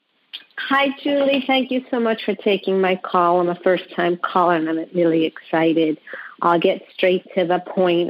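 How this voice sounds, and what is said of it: New York accent. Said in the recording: “originally from New York, as you can hear the accent.”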